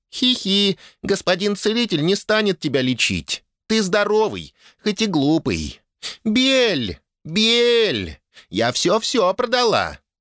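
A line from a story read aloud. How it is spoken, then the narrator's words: Joyful girlish squeak. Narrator (Russian): Радостно пискнула девчушка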